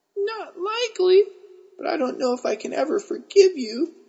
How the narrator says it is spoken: I squeaked

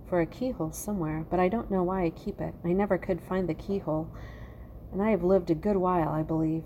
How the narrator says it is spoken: said Mossy sadly

